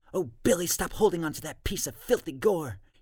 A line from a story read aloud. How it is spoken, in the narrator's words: She hisses